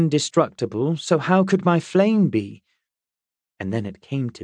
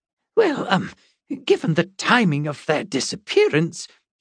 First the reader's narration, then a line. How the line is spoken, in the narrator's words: he stammered